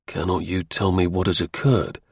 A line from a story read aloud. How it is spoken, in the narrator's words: I asked at last in a quiet, earnest voice